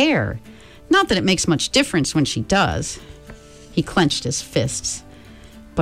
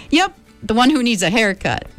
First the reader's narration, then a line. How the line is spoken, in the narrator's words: Meg giggled, forgetting her worries in her pleasure at showing Kelvin the picture